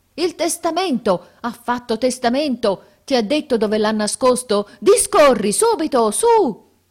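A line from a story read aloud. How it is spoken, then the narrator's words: Unanimous shout. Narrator (Italian): il grido che emisero fu uno solo ed unanime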